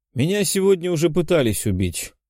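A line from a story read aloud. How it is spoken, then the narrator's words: Casual offhand remark. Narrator (Russian): будничным тоном обронил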